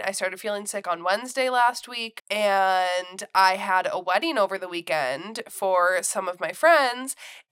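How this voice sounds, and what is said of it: Congested voice from a cold. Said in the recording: “you can tell by my voice, I do have a bit of a cold”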